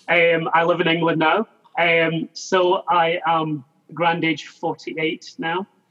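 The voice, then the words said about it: Scottish accent. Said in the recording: “Scotland originally, as you can probably tell by the accent.”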